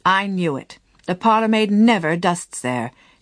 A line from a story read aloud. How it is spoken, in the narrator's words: she exclaimed, triumphantly